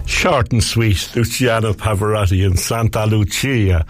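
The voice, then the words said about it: Put-on Italian accent. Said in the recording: “I'm putting on an Italian accent”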